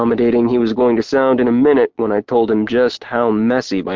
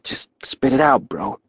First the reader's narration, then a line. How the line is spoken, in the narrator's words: Hartley whispered